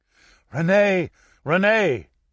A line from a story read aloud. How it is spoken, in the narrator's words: cried Antoine